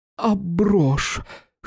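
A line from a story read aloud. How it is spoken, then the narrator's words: Hoarse question. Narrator (Russian): хрипло спросила Виктория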